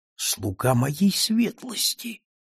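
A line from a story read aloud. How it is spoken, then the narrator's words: Breathy, barely spoken. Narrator (Russian): он скорее выдохнул, чем произнес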